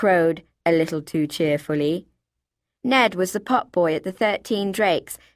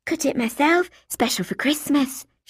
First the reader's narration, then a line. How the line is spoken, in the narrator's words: she whispered